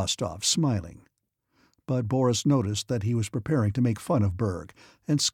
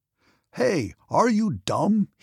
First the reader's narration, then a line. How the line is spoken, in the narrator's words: shouted